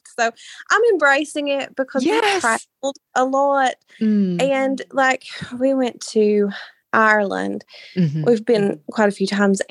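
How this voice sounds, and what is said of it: Appalachian accent. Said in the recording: “it's my dialect ... I love your accent ... an episode focusing on Appalachia, you know, of course, I need to hear your accent”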